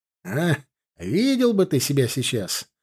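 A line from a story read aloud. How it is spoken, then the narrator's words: Joyful exclamation. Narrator (Russian): радостно воскликнул комсорг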